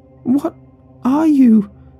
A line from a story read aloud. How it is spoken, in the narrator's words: Amber shrieked, loud enough to make my ears ring